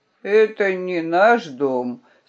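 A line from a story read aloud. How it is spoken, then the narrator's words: Sleepy reply. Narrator (Russian): сонно ответил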